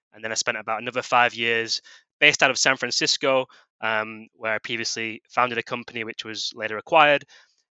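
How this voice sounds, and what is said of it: British accent. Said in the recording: “originally from the UK, you can probably tell by my accent”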